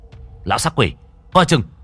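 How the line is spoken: Sudden alarmed shout. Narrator (Vietnamese): Đen trở tay không kịp, chỉ quát lên

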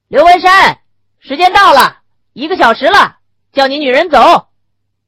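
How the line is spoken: Guard's loud shout. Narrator (Chinese): 门外的看守大声地喊叫起来

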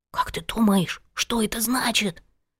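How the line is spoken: Whispered question. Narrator (Russian): шепотом спросил Пашка у Пети

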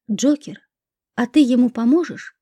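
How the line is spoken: Whispered. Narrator (Russian): прошептала Лика

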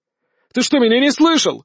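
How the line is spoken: Shout. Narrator (Russian): закричал Иван

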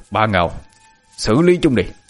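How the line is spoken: Cold. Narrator (Vietnamese): Thầy lãnh lạnh lùng lên tiếng

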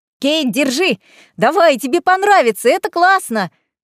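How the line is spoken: Excited shout. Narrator (Russian): крикнула мне Марселла

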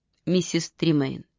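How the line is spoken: Quiet. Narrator (Russian): тихо сказала Миранда

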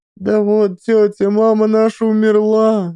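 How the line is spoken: Sobbing children. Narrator (Russian): рыдали ребятишки

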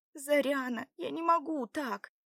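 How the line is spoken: Quiet whimpering. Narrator (Russian): тихо хныкала Белава

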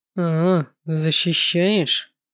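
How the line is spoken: Muttered, calming down. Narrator (Russian): пробормотал мой родитель, стремительно остывая

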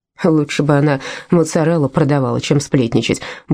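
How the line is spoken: Embarrassed grumble. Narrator (Russian): буркнул Чиро, явно смущенный ее вниманием

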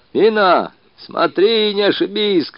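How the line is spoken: Several voices shouting. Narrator (Russian): кричали голоса

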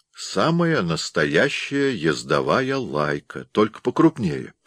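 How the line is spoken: Plain. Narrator (Russian): сказал Билл

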